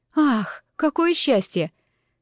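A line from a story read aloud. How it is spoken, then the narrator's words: Relieved sigh. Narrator (Russian): выдохнула с облегчением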